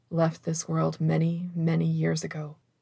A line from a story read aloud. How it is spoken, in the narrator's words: murmured